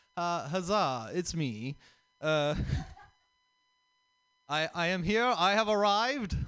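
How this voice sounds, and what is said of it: Put-on theatrical accent. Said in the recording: “I am now doing this accent for some reason”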